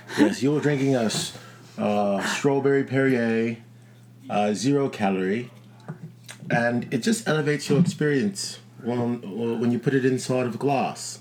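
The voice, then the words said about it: Caricatured, fluctuating put-on accent. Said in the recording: “This accent could do some work. ... it feels like a caricature of an accent. ... it keeps like fluctuating, you know, from like what region I'm from and how bad it is.”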